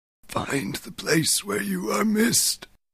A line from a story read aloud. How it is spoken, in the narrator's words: he whispered